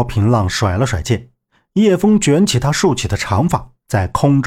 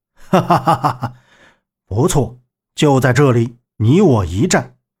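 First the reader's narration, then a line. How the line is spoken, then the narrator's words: Hearty laugh. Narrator (Chinese): 柳残阳大笑道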